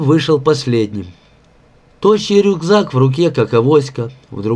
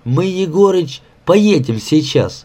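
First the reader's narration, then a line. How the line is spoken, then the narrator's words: Cheerful. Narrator (Russian): Под Глеба бодро начал Васька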